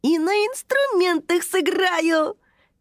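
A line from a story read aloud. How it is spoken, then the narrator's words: Joyful exclamation. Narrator (Russian): радостно вскричал Тайми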